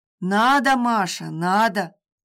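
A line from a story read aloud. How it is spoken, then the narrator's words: Stern. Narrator (Russian): строго заявил надсмотрщик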